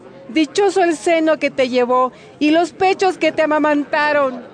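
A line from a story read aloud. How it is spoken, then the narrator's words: Woman speaking aloud. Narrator (Spanish): una mujer de entre la multitud dijo en voz alta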